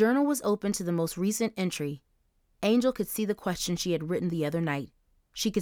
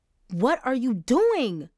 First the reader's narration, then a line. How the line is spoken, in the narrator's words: Angel yelled